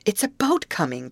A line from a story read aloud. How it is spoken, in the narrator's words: cried Betty